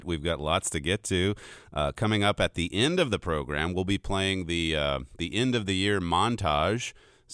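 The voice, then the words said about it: Slightly gravelly, hoarse voice. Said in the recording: “my voice is a little grovelly today”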